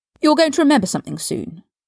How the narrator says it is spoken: Draco blurted out

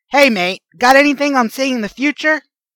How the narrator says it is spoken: A lanky young man shouts down

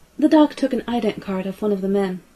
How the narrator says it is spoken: Kaylee said

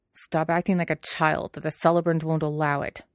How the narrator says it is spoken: Jiang Cheng snapped

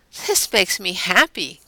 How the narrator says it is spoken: kind of laugh

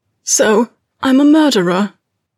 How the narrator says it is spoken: Potter finished hoarsely

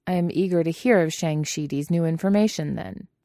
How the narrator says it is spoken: he said dryly

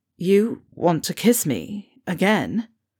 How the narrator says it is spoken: Fred choked out

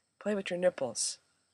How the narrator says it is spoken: murmured

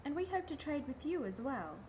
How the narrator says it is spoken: Taylor added hastily

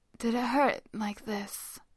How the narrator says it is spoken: Kame asks, his voice raw and tired and ripped open

